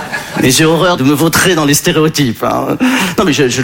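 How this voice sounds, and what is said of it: Usual voice. Nothing is said of it.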